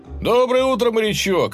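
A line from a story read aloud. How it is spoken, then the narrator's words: Cheerful shout. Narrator (Russian): бодро крикнул он вахтенному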